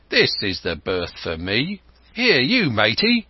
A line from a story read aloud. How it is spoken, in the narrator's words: he cried to the man who trundled the barrow